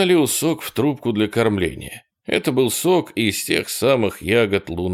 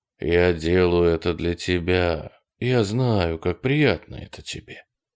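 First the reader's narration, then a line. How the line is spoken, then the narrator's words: Quiet speech. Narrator (Russian): тихо говорил он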